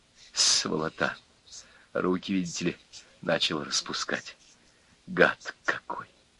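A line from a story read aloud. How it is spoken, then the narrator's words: Whispered. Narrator (Russian): Князев шептал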